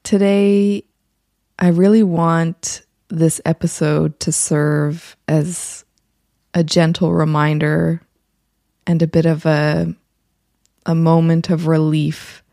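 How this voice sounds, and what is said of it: Slightly raspy early morning voice. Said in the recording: “my voice sounds a little more raspy than usual ... you're getting my early morning voice”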